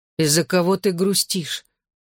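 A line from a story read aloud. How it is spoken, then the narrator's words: Sleepy question. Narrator (Russian): сонным голосом спросил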